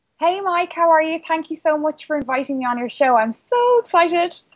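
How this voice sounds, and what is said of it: Irish accent. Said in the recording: “comes to us from Ireland, and if you didn't notice from her accent there a little bit”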